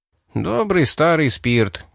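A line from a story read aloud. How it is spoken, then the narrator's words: Sighing. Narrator (Russian): вздохнул Рип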